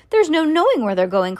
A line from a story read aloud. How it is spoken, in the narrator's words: cried Mr